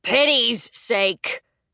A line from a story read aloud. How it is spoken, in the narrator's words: finished at a roar